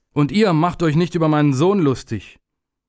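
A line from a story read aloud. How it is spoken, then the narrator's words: Venomous call. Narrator (German): rief er giftig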